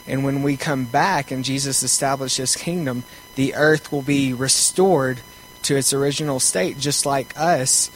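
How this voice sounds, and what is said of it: Southern American accent. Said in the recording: “southern accent.”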